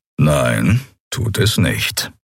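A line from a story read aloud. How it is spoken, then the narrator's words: Calm reply. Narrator (German): erwiderte Kero ruhig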